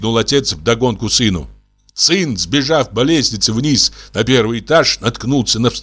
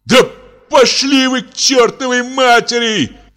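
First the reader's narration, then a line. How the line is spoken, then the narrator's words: Son's desperate shout. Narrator (Russian): крикнул сын в отчаянии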